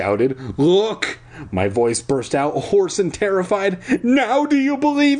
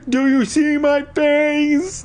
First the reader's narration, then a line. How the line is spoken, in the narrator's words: I wailed